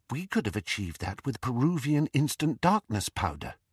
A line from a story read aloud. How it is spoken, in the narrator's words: whispered Hermione through the dark